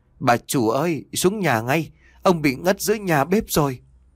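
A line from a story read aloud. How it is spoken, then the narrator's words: Panting stammer. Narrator (Vietnamese): Nó thở hổn hển lắp bắp nói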